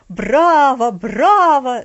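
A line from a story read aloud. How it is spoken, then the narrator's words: Old man's delighted shout. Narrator (Russian): закричал восторженно дедушка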